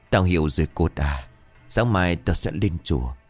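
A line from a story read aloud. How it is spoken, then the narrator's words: Trembling whisper. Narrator (Vietnamese): Ông Hàm ngồi lặng một lúc, sau đó run rẩy thì thầm một câu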